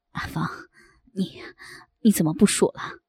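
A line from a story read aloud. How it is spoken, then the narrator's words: Breathless question. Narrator (Chinese): 他喘着粗气问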